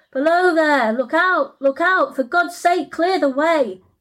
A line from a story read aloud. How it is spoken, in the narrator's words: the driver shouted out